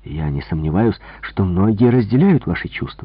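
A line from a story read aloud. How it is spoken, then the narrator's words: Exclaiming. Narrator (Russian): воскликнул я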